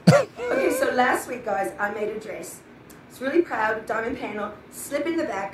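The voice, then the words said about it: Put-on British accent. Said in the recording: “Why is she using that British accent?”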